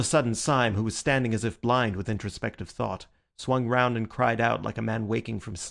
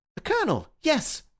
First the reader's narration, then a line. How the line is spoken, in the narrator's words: cried Bull